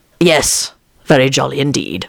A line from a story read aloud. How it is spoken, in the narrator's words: Lupin said gravely